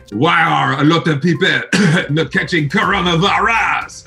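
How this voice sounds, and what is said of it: Bad put-on French accent. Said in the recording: “speaks French... That was a horrible accent.”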